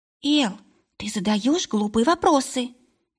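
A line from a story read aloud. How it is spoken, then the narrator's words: Hissing. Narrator (Russian): прошипел Пескун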